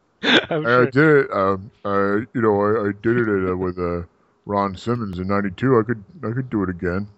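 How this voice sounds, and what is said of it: Put-on Samoan accent. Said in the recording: “I like that Samoan accent.”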